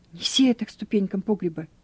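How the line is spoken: Very quiet. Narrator (Russian): Он говорил совсем тихо

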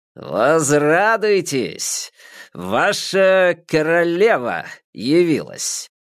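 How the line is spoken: Booming male voice. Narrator (Russian): прогремел мужчина

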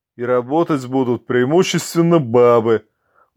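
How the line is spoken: Muttered through teeth. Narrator (Russian): буркнул кто-то сквозь зубы

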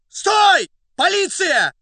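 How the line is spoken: Hoarse excited shout. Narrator (Russian): осипшим от волнения голосом крикнул Фондорин

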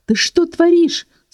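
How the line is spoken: Unladylike woman's shriek. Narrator (Russian): совсем не аристократично визжала рыжая

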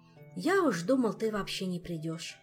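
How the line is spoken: Sighed. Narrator (Russian): вздохнул Мафей

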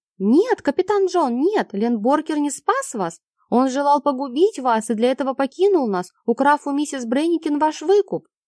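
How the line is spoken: Shouting. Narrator (Russian): Джон крикнул

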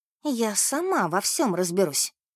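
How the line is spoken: Furious whisper. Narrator (Russian): кипя от гнева прошептала

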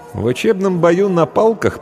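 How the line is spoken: Dismissive snort. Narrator (Russian): пренебрежительно хмыкнул Эшт

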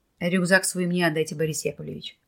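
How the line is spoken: Firm, unarguable voice. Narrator (Russian): твердым голосом, не требующим возражений, сказал Николай

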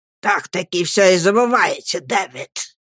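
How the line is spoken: Hissed. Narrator (Russian): прошипел он

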